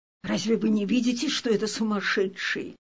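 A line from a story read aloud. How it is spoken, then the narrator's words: Whispering among onlookers. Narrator (Russian): Присутствовавшие шептали друг другу на ухо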